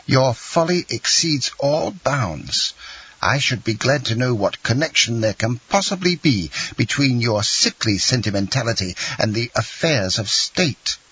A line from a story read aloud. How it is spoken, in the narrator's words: exclaimed the angry Marquise